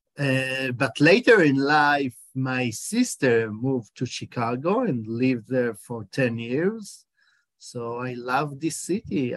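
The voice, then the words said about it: Israeli accent in English. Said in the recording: “you can hear my accent that I'm in Israeli”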